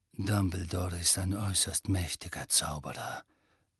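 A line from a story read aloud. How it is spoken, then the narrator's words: Murmuring. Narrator (German): murmelte Snape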